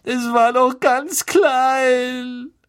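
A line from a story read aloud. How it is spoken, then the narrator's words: Sobbing. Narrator (German): schluchzte Lavender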